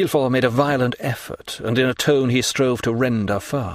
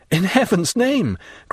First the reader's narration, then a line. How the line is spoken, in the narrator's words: cried the unhappy young man